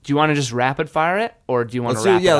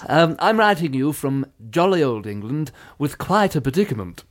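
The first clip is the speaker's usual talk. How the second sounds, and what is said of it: Funny put-on British accent. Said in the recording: “I feel like you can do a good, funny British accent”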